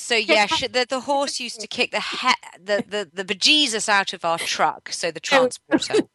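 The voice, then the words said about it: Strong accent. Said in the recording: “You've got quite the accent going.”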